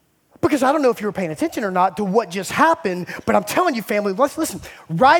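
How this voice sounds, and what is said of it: Usual voice. Nothing is said of it.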